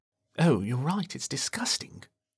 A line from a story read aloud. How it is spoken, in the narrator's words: muttered